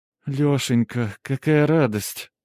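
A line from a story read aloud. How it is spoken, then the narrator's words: Drawn-out. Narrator (Russian): протянула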